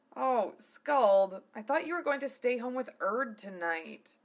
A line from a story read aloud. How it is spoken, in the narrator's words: whined Keiji